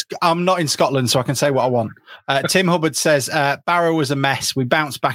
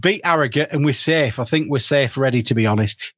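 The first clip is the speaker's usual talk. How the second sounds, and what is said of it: Put-on Yorkshire accent. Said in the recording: “getting more and more Yorkshire as he writes ... Was that a Yorkshire accent? ... Yes.”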